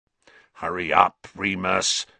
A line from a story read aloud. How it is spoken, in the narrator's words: snarled Black, who was still watching Scabbers with a horrible sort of hunger in his face